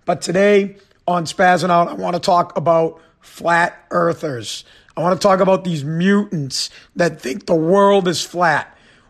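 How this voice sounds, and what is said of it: Hoarse, partly lost voice. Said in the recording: “My voice is a little bit gone ... my voice is a little messed up”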